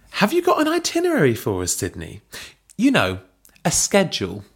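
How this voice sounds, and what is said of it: Sassy put-on American accent. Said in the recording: “I do want to apologise to all of our American listeners ... how terrible it was ... with this accent comes a hand on the hip ... it's real sass”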